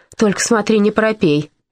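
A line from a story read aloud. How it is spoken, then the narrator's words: Stern woman's voice. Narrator (Russian): строгим голосом добавила дама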